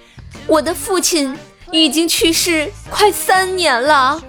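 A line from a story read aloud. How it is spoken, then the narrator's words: Reading aloud loudly. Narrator (Chinese): 我就大声的念了出来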